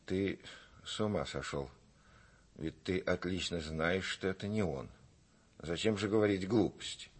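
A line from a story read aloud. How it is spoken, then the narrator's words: Frightened mutter. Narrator (Russian): Мать в испуге пробормотала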